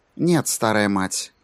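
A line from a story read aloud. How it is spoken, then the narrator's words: Even voice. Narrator (Russian): ровным голосом ответила Сьюзен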